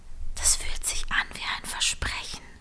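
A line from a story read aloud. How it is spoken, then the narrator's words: Whispered, female. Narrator (German): flüsterte sie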